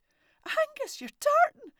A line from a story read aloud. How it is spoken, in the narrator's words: he cried out